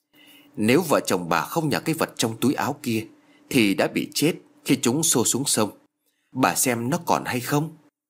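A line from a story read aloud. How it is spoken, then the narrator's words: Old man sighing. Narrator (Vietnamese): Ông lão thở dài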